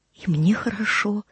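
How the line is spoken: Soft whisper keeping silence. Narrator (Russian): он ответил ей шепотом, чтобы не нарушить эту приятную тишину

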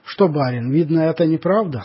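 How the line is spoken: Plain. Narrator (Russian): спросила она

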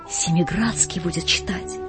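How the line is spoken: Whisper. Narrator (Russian): кто-то шепнул другому

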